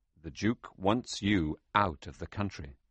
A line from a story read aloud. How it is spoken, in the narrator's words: the man said